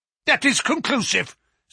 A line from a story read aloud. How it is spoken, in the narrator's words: said the Professor, glaring angrily